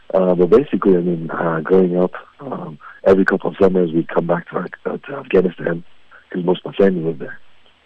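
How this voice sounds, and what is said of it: Hoarse, weak voice. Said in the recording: “I just miraculously lost my voice today”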